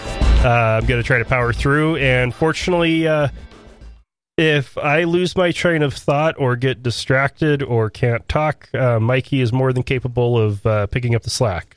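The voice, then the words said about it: Sick-sounding voice. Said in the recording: “As I'm sure you can all tell from my voice, yes, I am sick as well.”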